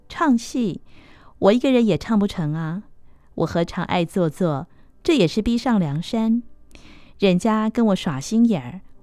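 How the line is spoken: Sneering. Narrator (Chinese): 流苏 冷笑说

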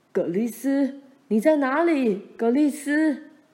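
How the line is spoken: Faint distant calling. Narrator (Chinese): 大沼泽那边也隐约传来爸和妈的叫声

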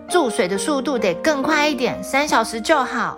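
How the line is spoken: Angry yelling. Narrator (Chinese): 公主大吼大叫的说

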